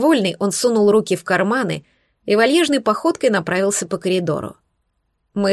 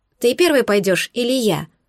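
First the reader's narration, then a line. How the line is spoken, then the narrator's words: Plain. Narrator (Russian): спросила лесовичка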